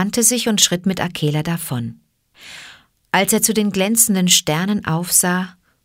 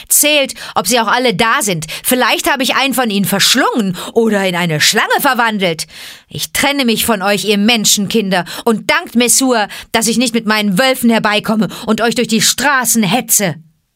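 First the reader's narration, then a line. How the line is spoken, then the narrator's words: Mocking shout. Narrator (German): rief Mowgli höhnisch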